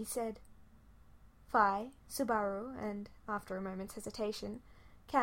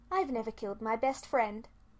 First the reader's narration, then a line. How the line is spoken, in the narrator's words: Fi said loudly and firmly